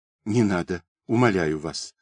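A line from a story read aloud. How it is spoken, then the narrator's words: Frightened pleading whisper. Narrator (Russian): испуганно зашептала Ирина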